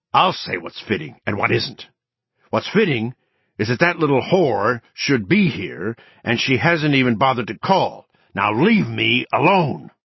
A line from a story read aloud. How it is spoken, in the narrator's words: Anne snarled